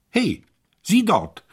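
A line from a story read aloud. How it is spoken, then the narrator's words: Duke calling out. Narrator (German): rief der Herzog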